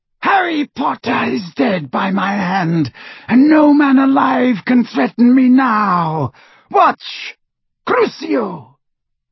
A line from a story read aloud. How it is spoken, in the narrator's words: screeched Voldemort over the tumult